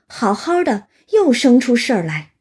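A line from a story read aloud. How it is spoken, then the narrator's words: Exasperated sigh. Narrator (Chinese): 贾琏儿拍手叹气道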